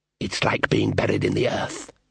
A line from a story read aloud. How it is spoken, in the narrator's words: hissed the elf